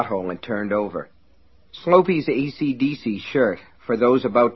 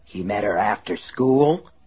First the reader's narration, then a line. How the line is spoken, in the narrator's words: Lester asked hoarsely